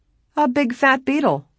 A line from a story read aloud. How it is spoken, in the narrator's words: John laughed